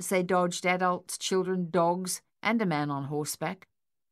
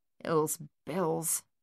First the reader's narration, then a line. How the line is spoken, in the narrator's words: Thaddeus mumbled